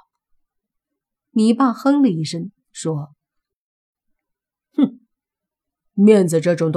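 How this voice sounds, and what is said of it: Usual voice. Nothing is said of it.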